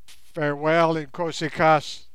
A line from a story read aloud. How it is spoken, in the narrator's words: he cried